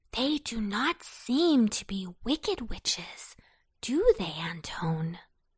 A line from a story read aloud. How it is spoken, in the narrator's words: whispered Babette